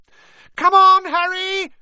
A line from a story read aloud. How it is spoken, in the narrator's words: Hermione screamed